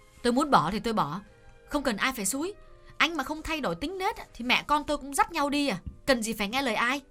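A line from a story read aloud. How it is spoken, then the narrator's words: Sharp snapping retort. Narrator (Vietnamese): nàng nạt lại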